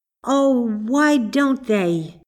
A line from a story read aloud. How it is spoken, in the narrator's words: cried Marjorie